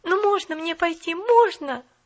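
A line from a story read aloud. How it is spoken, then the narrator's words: Pleading. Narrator (Russian): взмолилась Поллианна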